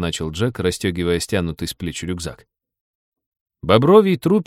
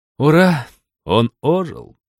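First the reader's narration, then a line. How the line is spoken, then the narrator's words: Sad. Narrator (Russian): печально сказал Джек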